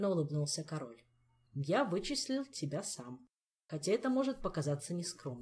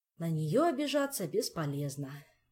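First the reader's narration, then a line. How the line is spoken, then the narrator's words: Sighing. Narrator (Russian): вздохнул Кантор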